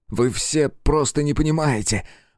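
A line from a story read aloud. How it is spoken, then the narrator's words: Strained, forced out. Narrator (Russian): выдавил себя Джейкоб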